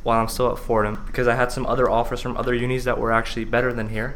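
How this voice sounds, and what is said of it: Speaks with a foreign accent. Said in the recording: “Sorry, my fucking accent.”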